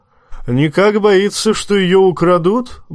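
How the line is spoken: Roar. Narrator (Russian): взревел Тормунд

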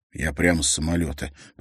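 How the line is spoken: Whisper. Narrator (Russian): прошептал Харри

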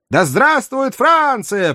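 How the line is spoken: Crowd shouting back. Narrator (Russian): прокричали в ответ жители Льежа

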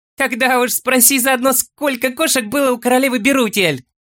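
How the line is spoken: Laughing hobbit. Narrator (Russian): Рассмеялся хоббит

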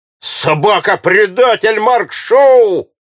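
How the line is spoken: Angry shout. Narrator (Russian): закричал на него Эльвард

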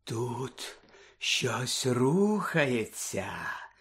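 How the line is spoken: Professor whispering. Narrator (Ukrainian): прошепотіла професорка

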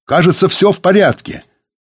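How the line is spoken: Distant shout. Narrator (Russian): Сергей крикнул из павильона

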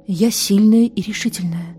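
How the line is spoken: Quietly repeating to herself. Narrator (Russian): тихонько повторяла она сама себе

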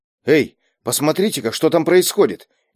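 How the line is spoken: Low call. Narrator (Russian): негромко окликнул спорщиков Берг

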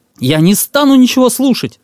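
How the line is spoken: Boy shouting. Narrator (Russian): закричал мальчишка

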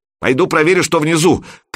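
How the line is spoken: Shout. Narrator (Russian): крикнула Любка

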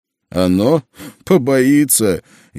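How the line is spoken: Laughing. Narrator (Russian): я рассмеялся

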